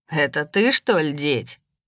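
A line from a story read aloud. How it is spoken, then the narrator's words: Mocking question. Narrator (Russian): насмешливо спросил предводитель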